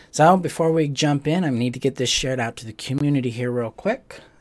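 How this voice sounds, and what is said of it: Muffled voice from a cold. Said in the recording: “I've got a little cold going on. So if I sound a little muffled,”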